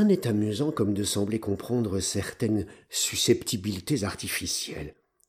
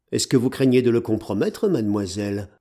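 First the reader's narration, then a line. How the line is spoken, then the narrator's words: Stern. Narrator (French): ajoutai-je d'un ton sévère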